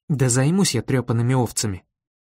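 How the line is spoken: Muttering through teeth. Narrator (Russian): пробормотал я сквозь зубы

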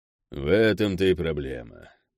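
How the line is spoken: Sad sigh. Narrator (Russian): печально вздохнул глава Соек

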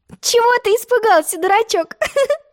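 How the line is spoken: Laughing. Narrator (Russian): засмеялась Алиса

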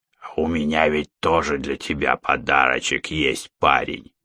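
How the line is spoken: Sudden creaky voice. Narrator (Russian): вдруг проскрипел он

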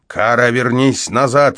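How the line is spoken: Barked. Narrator (Russian): рявкнул я на нее

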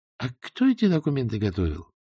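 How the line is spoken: Thoughtful question. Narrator (Russian): задумчиво спросил тогда Берия

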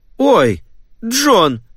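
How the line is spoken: Female exclaiming. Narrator (Russian): воскликнула она

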